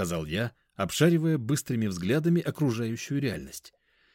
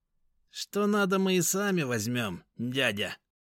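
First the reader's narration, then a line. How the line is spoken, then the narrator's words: Nasal, scrawny ringleader. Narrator (Russian): прогнусавил щуплый заводила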